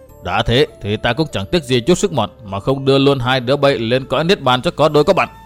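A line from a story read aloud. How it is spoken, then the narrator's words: Cold voice. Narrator (Vietnamese): lạnh lùng nói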